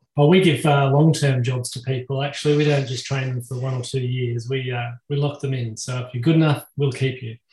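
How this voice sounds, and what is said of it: Australian accent. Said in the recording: “I'm obviously from Australia, and so I hope that you can all understand this quirky accent that I've got”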